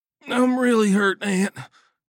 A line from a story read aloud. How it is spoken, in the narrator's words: he moaned